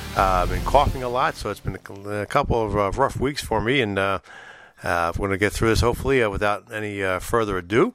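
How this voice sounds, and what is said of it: Deep, uneven voice from illness. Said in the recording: “my voice sounds a little deep and uneven, it's because I've been battling a little bit of a cold, flu, walking pneumonia”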